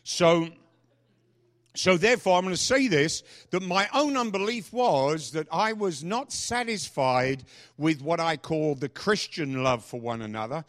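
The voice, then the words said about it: Noticeable non-native accent. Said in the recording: “if you're new and you don't understand my accent, it's the only one I've got”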